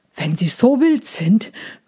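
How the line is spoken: Panting, male. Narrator (German): keuchte er

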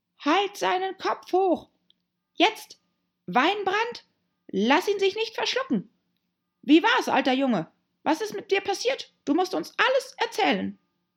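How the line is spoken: Small weak squeaky voice. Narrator (German): eine kleine, schwache, quiekende Stimme

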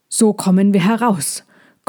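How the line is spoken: Panting. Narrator (German): keuchte Molchi

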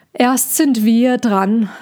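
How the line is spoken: Sighing. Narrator (German): seufzte Cassandra

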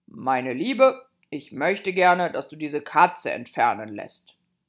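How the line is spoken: Firm, called out. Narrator (German): sagte der König sehr entschieden, und er rief der Königin zu

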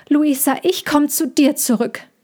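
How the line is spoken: Said loudly. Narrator (German): sagte Mina laut

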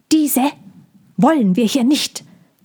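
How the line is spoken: Bird hissing. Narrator (German): zischte der Vogel

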